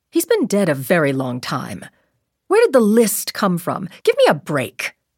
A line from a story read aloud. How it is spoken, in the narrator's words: Tracy snapped out